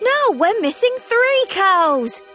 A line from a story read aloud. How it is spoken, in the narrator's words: cried Thomas